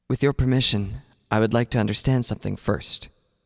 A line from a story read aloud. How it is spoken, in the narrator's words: he replied